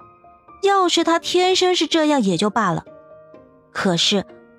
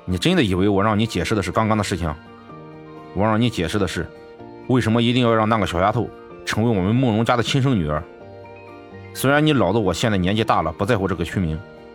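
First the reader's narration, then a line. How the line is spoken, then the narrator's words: Sarcastic. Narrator (Chinese): 慕容允浩讽刺的说道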